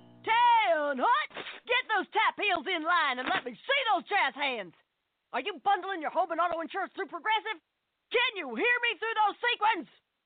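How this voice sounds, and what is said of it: Barking drill-instructor voice. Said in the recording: “my impression of a drill instructor directing a musical”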